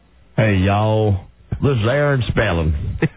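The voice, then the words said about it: Put-on southern Texas drawl. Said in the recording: “I've heard he has a southern drawl. Does he have a Texas accent? ... Would it be closer to this?”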